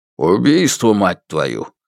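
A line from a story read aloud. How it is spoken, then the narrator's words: Grim words through teeth. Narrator (Russian): мрачно процедил начальник Шань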